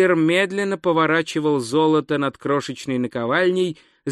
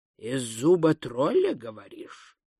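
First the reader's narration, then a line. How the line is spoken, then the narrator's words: Mutter. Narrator (Russian): пробормотал он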